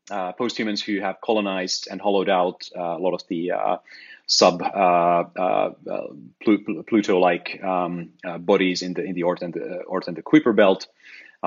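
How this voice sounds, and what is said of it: Voice giving out, hoarse. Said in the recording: “I'm losing my voice a little bit suddenly.”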